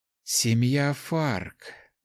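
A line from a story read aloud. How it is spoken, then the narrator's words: Sighing. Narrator (Russian): вздохнула мастер смерти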